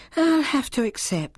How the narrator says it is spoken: she said with a sigh

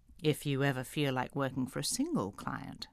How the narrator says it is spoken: he had murmured

